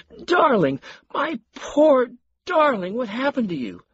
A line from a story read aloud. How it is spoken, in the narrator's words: Marion knelt by her husband and wailed